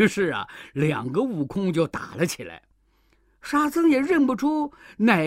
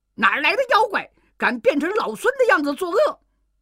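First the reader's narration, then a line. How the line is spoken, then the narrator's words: Furious scolding. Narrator (Chinese): 悟空大怒，骂道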